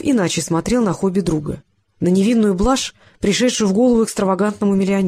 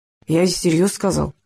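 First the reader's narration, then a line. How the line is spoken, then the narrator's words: Grumbling. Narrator (Russian): буркнул Рыжков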